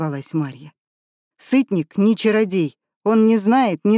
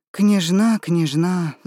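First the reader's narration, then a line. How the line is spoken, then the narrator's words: Sighing. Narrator (Russian): вздохнул он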